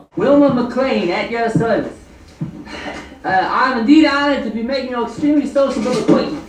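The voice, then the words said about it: Over-the-top weird put-on accent. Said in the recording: “Jerry's accent is very fun and over the top ... bad acting and weird accent”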